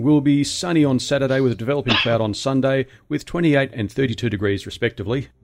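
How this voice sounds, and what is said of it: Australian accent. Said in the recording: “That is how you do an Australian accent ... his is better because he's from there ... he's kicking butt with that Australian accent”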